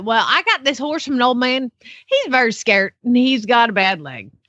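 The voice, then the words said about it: Southern accent. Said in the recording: “you didn't do it in a Southern accent ... If you speak Southern”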